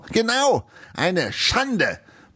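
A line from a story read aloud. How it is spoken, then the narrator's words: Blustering, nearly choking. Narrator (German): polterte Eisenbeißer und verschluckte sich dabei fast an seinem Wein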